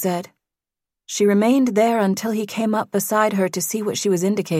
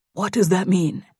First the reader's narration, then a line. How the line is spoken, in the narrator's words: he finally replied